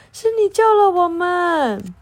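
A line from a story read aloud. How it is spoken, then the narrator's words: Frogs crying out excitedly. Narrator (Chinese): 青蛙们一看是蟾蜍，不禁大叫起来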